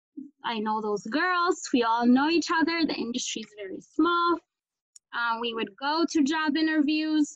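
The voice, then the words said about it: African-accented English. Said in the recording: “my accent as an African”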